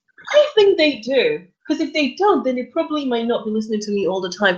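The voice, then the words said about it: English accent. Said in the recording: “You have an English accent.”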